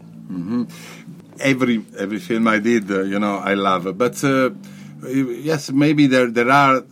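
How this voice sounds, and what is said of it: Thick Italian accent. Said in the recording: “he's got a very thick Italian accent, but you can still, he's afraid that you can't understand him”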